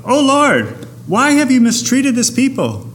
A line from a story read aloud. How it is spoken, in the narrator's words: Moses cried out